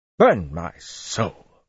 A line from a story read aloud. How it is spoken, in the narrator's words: Wireman exclaimed